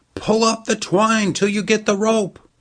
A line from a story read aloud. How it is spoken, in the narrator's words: They shouted